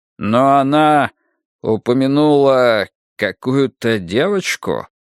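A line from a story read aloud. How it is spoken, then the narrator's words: Slow. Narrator (Russian): медленно проговорил Гуннарсон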